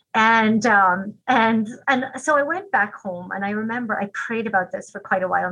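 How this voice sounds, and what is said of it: Irish accent. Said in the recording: “you, with your Irish accent”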